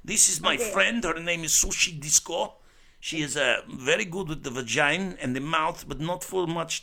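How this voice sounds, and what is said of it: Put-on foreign accent. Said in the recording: “That's a great accent ... You like the accent? You want to hear me talk like that? ... Let's talk like this accent”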